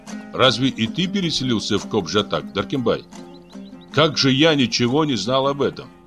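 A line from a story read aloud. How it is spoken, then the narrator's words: Plain. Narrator (Russian): спросил он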